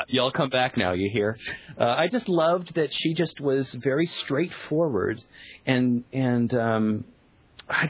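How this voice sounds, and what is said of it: Virginia Southern accent. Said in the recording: “I'm doing it right now. I'm from Virginia. This is my Virginia accent.”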